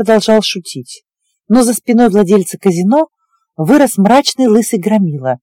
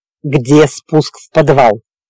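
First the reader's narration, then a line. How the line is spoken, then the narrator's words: Barking. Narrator (Russian): рявкнул Диего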